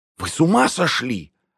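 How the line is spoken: Gasped. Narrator (Russian): ахнула Майя

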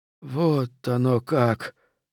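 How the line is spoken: Groan. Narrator (Russian): простонал он

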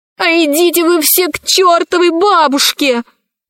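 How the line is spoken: Shouted. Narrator (Russian): закричала Кора

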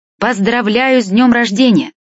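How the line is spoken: Shout from stairs. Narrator (Russian): крикнул я с лестницы

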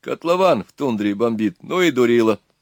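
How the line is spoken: Joyful announcement. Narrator (Russian): радостно сообщил он

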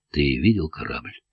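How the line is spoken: Quiet question. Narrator (Russian): тихо спросил Савин

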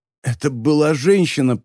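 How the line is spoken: Wheezy rasp. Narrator (Russian): просипел Феликс

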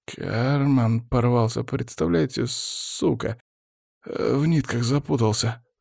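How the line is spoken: Muttering. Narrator (Russian): забормотал коллекционер

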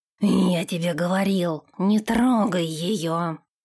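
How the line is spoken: Agitated growl after battle. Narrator (Russian): прорычал Нэш, взвинченный после сражения

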